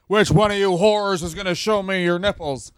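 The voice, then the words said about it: Exaggerated impression of own voice. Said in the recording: “That was an impression of you ... did an impression of himself that was spot on”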